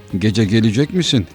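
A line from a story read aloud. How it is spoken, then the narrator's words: Plain. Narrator (Turkish): dedi arkadaşı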